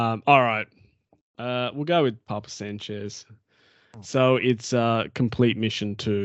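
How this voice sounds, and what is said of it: Usual voice. Nothing is said of it.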